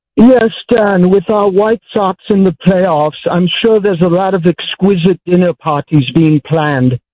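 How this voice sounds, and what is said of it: Put-on British accent. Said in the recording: “nice British accent.”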